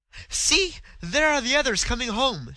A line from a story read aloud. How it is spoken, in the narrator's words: she exclaimed with a note of relief